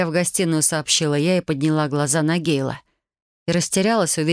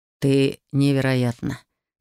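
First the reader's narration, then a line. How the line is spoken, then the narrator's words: Hoarse voice. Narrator (Russian): хрипло произнес Гейл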